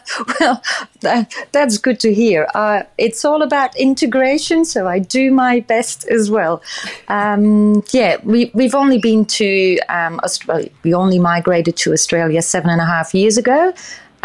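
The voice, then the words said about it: Belgian accent with Australian tinge. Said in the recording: “I can hear a little bit of a Belgian accent, but I can definitely hear some Gold Coast in there too”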